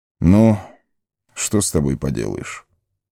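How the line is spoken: Sigh. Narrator (Russian): вздохнул Элронд

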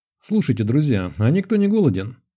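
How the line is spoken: Forced cheerful question. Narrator (Russian): спросил слишком бодрым голосом, явно пытаясь резко сменить тему

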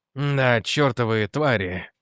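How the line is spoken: Through gritted teeth. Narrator (Russian): процедил Холден

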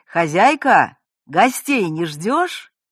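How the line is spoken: Cheerful shout into house. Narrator (Russian): бодро крикнул в глубины дома

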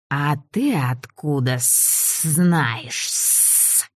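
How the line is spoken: Suspicious lisping voice from behind. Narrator (Russian): спросил очень подозрительный, сильно шепелявый голос из-за наших спин

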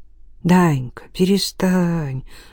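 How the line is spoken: Affectionate. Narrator (Russian): ласково заговорил он с сыном

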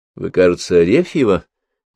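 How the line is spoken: Quiet inquiry. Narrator (Russian): негромко поинтересовалась княгиня

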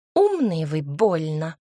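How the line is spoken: Grumbling woman. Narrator (Russian): проворчала женщина

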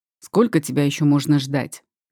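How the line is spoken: Irritated question. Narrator (Russian): спрашивает он раздраженно

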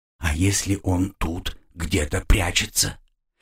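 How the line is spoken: Quiet question. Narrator (Russian): так же тихо спросил второй голос

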